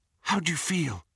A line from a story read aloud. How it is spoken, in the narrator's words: Hermione whispered